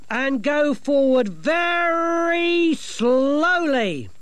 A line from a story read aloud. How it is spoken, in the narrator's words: she bellowed